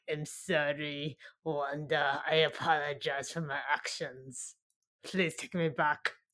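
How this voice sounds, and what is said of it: Vague British or Scottish put-on accent. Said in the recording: “Is this a British accent? It sounds like maybe kind of like Scottish. I'm unsure. It seems vague ... I cannot do accents”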